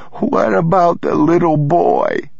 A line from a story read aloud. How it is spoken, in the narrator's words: he sobbed